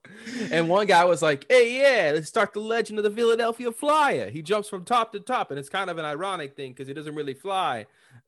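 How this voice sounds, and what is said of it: Unconvincing put-on Philadelphia accent. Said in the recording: “Did I get a good Philadelphia accent? ... No.”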